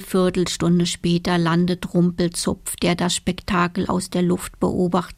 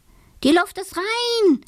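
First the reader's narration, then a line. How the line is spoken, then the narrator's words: Called out. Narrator (German): ruft er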